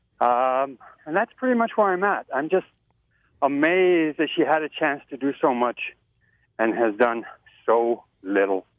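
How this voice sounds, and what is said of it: A little out of breath. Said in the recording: “I'm out walking, so that's why I'm a little bit out of breath.”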